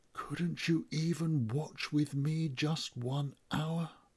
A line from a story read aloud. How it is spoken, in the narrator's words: His voice is gentle